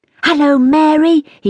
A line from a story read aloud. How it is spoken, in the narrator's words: cried as he swooped over our heads